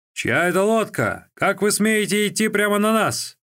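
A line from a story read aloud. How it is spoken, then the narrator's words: Shout. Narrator (Russian): один из сопровождающих Хуан Вэньбина закричал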